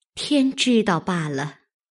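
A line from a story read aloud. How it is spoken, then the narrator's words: Sighing. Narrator (Chinese): 袭人叹道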